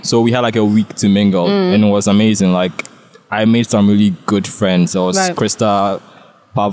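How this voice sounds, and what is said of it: Ghanaian accent. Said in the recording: “I was very determined not to lose my Ghanaian accent ... I made it a point to keep my accent”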